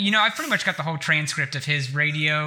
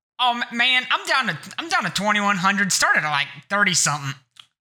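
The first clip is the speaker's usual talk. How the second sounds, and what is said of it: Impression of Russell on radio. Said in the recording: “I'm going to do my best to just kind of impersonate Russell here.”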